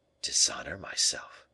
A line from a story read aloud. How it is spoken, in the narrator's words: murmured the king, turning pale with anger